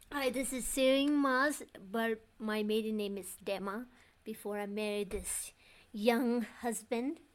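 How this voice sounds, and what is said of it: Thick Bhutanese accent in English. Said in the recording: “my accent's a little thick too, but English is my second language, and my first language is Tsongkha”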